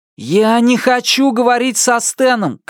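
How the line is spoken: Shouted. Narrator (Russian): крикнул он

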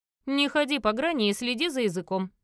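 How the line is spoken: Menacing. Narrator (Russian): раздалось грозно

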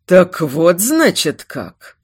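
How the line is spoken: Hissed through teeth. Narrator (Russian): Процедил черный враг

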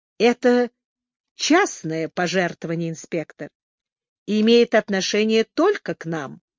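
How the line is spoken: Pleasant low voice. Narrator (Russian): Миссис Хипс добавила приятным низким голосом

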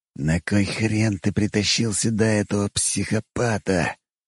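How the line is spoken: Hissed. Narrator (Russian): прошипел Богомолов

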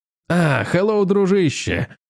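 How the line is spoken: Cheerful exclamation. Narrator (Russian): весело воскликнул Грегор, не испытывая ни страха, ни волнения

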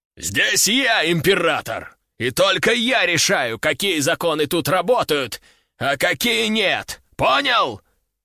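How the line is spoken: Man growling. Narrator (Russian): Зарычал мужик на экране

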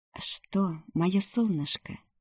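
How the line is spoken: Whisper. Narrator (Russian): прошептал Рамкан

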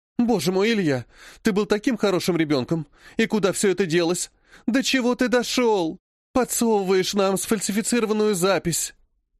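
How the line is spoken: Sobbing. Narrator (Russian): Она всхлипнула

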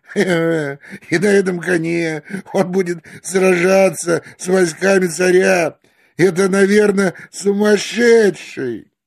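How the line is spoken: Mocking laughter. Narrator (Russian): Они стали смеяться и говорить один другому

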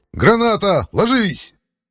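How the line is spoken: Shout. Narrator (Russian): крикнул

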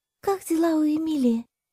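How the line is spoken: Very timid question. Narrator (Russian): очень робко поинтересовалась Кира

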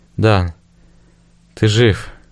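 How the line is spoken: Quiet. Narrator (Russian): тихо произнесла

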